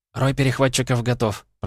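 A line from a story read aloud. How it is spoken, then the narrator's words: Rapid patter. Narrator (Russian): протараторил Ахло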